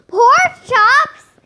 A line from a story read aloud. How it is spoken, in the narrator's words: Nick shouted